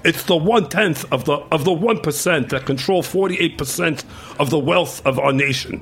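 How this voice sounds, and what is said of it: Imitates another person's voice. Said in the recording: “I'm gonna sound like Bernie Sanders now ... you're gonna have Bernie Sanders ... impersonated”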